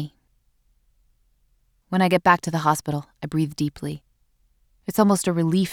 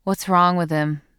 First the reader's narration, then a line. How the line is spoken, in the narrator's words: the nurse at the desk asks in a bored voice